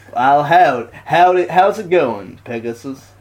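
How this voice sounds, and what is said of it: Put-on cowboy accent. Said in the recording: “Perseus speaks like a cowboy ... that's your accent for a cowboy”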